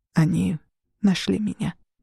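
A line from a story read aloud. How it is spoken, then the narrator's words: Quiet. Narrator (Russian): тихо сказал Хиру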